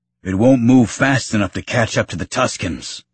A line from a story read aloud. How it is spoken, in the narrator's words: Kleeg Lars bellowed in protest